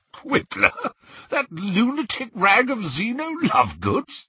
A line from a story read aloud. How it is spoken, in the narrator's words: At last he spluttered